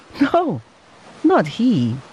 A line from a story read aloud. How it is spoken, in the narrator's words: answered the father with a happy laugh